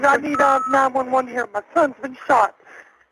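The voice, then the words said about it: Frantic, panicked voice. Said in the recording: “the woman talks in a frantic voice”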